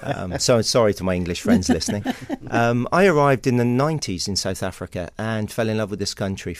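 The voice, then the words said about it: English West Country accent. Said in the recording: “despite the accent... I'm from the UK originally. I'm from a little village in Somerset in the West Country there.”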